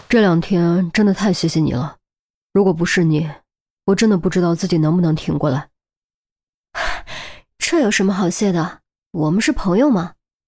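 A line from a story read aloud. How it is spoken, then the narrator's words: Resigned sigh. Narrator (Chinese): 傅红英没有强求，叹了口气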